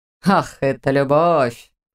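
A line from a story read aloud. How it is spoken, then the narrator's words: Short laugh. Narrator (Russian): хохотнул Камьян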